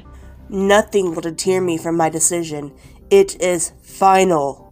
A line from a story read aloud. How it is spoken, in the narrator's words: he firmly said